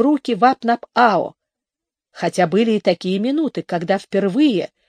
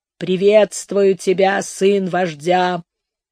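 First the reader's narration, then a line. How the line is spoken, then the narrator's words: Low hoarse voice. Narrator (Russian): промолвил он низким хриплым голосом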